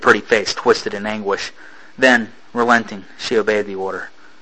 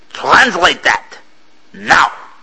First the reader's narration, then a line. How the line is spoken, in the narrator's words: She spat at him